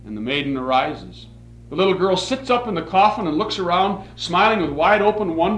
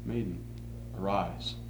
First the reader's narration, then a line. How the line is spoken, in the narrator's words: He looks with compassion, and his lips once more softly pronounce